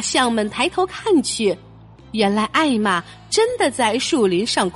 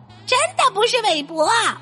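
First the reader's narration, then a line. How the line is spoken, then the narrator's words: Shout. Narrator (Chinese): 蓝鸟喊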